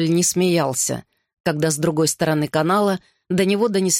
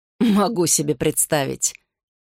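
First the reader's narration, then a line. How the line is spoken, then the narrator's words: Chuckled. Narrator (Russian): Гарри хохотнул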